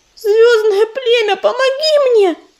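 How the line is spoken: Screaming. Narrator (Russian): завопила она

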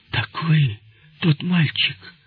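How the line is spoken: Exclaiming. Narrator (Russian): воскликнул он

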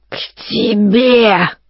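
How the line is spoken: Wild vicious hiss. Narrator (Russian): раздалось сипение, такое дикое, злобное

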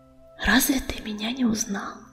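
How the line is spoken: Woman whispering. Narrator (Russian): прошептала она

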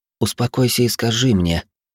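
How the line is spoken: Tender cooing girl. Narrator (Russian): ласково проворковала девушка

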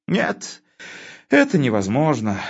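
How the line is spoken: Sigh. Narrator (Russian): вздохнул Константин

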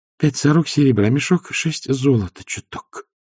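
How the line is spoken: Half-voiced, low. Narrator (Russian): сказала Агнесса вполголоса

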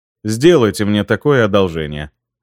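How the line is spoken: Icy reply. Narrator (Russian): ледяным тоном ответил я

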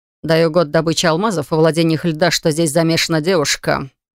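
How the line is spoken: Smirking snort. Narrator (Russian): хмыкнул Лайт

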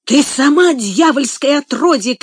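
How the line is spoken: Shouting. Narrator (Russian): крикнул он

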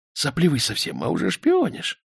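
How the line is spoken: Hissing. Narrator (Russian): прошипел Романов

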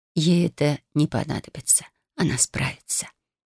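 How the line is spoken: Gentle, earth's voice. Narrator (Russian): ласково отозвалась земля

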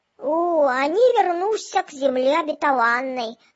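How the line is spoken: Cheerful. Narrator (Russian): сказал всякограб бодро

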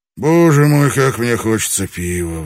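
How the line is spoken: Sighing. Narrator (Russian): вздохнул он

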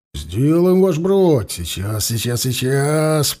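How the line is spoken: Drawn-out drawl. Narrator (Russian): протянул Савва

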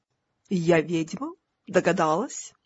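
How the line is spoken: Plain. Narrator (Russian): ответила Мистик

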